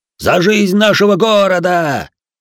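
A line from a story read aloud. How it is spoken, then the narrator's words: Bellow, caravan master. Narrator (Russian): заорал хозяин каравана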